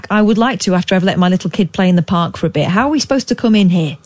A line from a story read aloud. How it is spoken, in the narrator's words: She quickly hit back